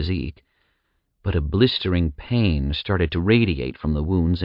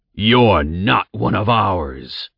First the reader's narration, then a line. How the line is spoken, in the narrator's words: the man roared from the other side of the cage